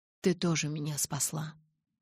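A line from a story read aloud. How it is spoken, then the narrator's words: Quiet. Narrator (Russian): тихо промолвил он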